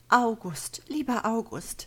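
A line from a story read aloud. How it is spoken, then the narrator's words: Pleading voice. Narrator (German): bittet mit flehender Stimme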